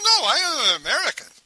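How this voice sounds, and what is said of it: Fake East Indian accent. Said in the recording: “you're not East Indian. It's obvious you're calling in with a fake accent... I can tell from that accent you're from Delaware”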